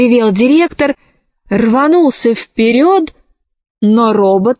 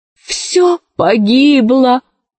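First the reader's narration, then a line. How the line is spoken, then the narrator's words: Moaning. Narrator (Russian): застонал профессор Синг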